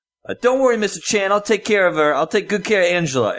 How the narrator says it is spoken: yell

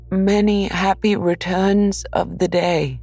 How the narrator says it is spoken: called out Pooh

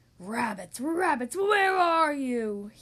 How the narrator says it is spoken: howled

